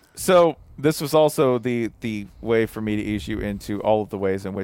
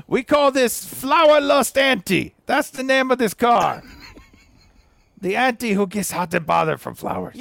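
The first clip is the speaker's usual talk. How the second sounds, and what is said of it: Good put-on Italian accent. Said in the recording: “You have a great Italian accent”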